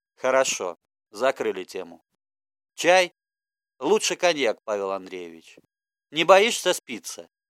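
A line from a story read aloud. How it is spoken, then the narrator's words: Warm rumbling bass. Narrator (Russian): зарокотал он потеплевшим баском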